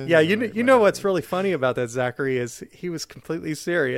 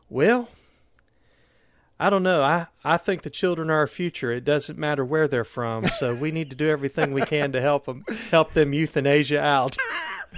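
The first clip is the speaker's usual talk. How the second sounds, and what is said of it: Imitated Southern US accent. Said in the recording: “He had a very Southern accent. He kind of Trip Tucker sort of Southern accent.”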